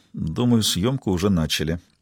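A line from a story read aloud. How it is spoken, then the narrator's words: Quiet addition. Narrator (Russian): Робинсон тихо добавил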